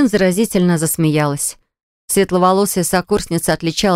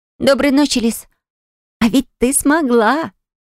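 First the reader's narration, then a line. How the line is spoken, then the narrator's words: Joyful exclamation. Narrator (Russian): вновь радостно воскликнула подруга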